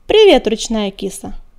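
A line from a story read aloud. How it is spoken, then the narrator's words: Cheerful meow. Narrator (Russian): весело мяукнул Серый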